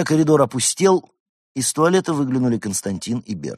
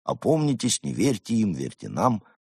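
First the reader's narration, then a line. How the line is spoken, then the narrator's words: Gloomy dejected muttering. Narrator (Russian): Мрачные сверхобезьянцы уныло бормоча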